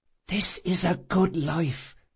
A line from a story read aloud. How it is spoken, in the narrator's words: she whispered